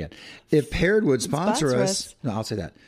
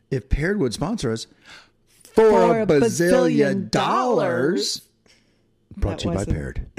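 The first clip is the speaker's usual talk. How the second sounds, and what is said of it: Announcer voice. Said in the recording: “you have a good announcer voice, actually. Oh, you really ... do.”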